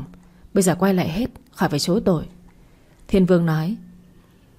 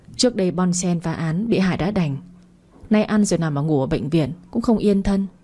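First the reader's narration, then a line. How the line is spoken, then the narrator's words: Suppressed sigh. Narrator (Vietnamese): Cẩm Trang nén tiếng thở dài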